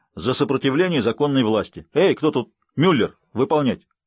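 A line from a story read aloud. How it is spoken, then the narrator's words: Curt commands. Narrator (Russian): коротко приказал комендант, отрывисто бросил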